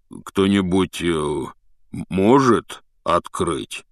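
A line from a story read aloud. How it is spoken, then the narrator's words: Dejected voice. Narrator (Russian): спросил Хагрид упавшим голосом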